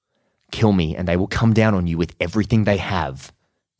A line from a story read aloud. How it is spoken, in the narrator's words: Salazar says